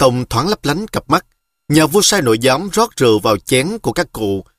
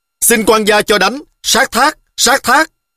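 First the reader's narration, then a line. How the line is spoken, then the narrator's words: Guards shouting in unison. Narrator (Vietnamese): lính cấm vệ đứng canh bên ngoài cũng thét vang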